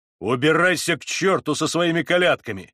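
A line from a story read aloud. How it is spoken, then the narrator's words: Angry shouting. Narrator (Russian): сердито закричал Вакула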